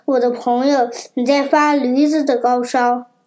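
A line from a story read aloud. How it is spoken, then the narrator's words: Sighing. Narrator (Chinese): 土拨鼠叹着气说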